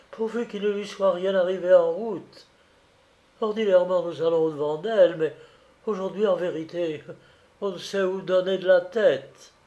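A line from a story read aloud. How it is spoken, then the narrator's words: Sighed. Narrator (French): soupira Félicie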